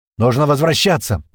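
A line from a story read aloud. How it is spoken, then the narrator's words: Shouted. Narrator (Russian): прокричал Пьер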